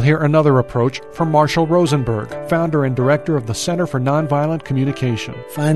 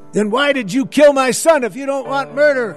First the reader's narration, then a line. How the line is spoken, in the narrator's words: One of them screams back